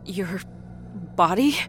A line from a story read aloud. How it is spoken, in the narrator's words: Rita whimpered